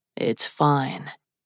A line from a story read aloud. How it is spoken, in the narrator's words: His voice was low